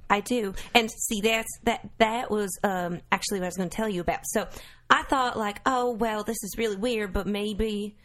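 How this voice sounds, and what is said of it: Southern American accent. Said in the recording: “hear it by your accent. ... There's two kinds of Southern people”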